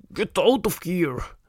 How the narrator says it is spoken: Mike cried

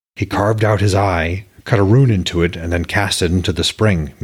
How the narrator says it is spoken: Mimir said flatly

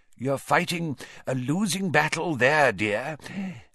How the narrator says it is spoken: said his mirror in a wheezy voice

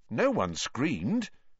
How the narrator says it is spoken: said Ron, more nervously still

